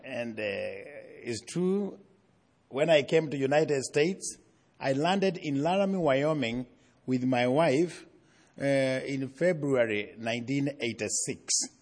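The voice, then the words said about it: Noticeable foreign accent. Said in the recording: “I do have an accent.”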